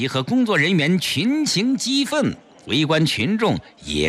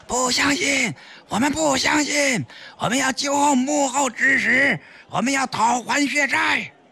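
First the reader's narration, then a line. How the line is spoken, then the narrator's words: Group shouting. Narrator (Chinese): 工作人员集体大喊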